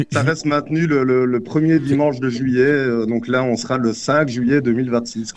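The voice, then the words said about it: Slight Belgian French accent. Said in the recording (French): “tu as un léger accent belge ? ... nécessairement, tout le monde va le dire”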